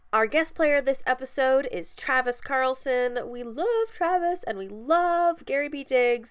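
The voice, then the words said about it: Congested, stuffy-nosed voice. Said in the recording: “I'm a little stuffed up, and I apologize if I sound a little weird”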